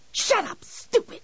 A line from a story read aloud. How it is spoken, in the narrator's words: She hissed